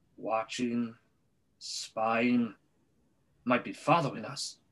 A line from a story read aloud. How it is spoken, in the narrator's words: muttered Uncle Vernon wildly